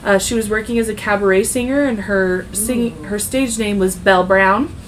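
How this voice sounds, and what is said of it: Weird twangy accent. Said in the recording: “I'm, like, throwing this weird twangy accent”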